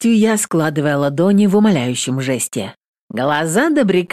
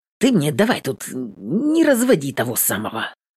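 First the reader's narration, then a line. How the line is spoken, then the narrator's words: Confused mutter. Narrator (Russian): Растерянно бормочет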